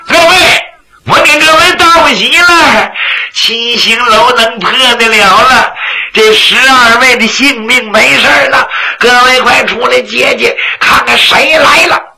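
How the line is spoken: Breathless shouting. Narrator (Chinese): 房叔安是连跑带颠呐，进店房就喊

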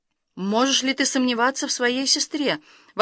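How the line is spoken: Mother's exclamation. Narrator (Russian): воскликнула мать

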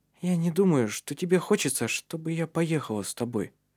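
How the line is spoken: Said timidly. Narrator (Russian): робко промолвила она

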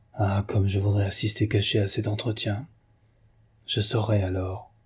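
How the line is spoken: Almost whispered. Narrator (French): Elle dit, presque à voix basse

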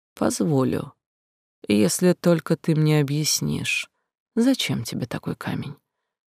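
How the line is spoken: Quiet, forced low voice. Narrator (Russian): Говорить Нарис старалась негромко, старательно делая голос как можно ниже

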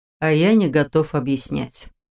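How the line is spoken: Calm retort. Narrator (Russian): Спокойно парировал он

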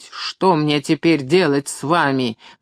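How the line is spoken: Barking shout. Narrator (Russian): гаркнул он

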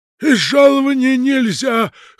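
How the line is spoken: Groom's hoarse objection. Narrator (Russian): хрипло возразил ему кособородый конюх

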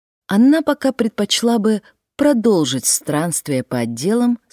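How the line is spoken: Plain. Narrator (Russian): сказала Дилейни

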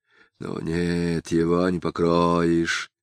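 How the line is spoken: Muttering. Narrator (Russian): пробормотал поручик

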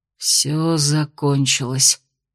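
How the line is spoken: Hoarse rasp. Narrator (Russian): прохрипел Кирсан

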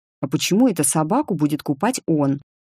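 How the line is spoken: Displeased grumble. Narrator (Russian): недовольно пробурчал сын

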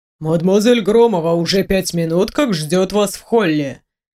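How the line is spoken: Calm servant's announcement. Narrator (Russian): Спокойно объявил слуга

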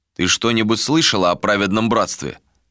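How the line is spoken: Plain. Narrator (Russian): спросил Меба

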